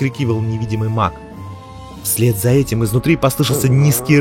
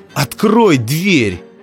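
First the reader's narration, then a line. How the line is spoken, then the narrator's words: Shouted. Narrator (Russian): прокричал Дзирт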